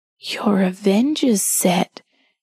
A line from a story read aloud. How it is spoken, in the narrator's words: whispered